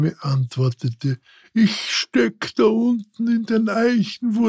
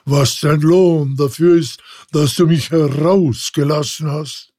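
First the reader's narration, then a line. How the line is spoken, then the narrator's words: Terrible voice. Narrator (German): rief er mit einer fürchterlichen Stimme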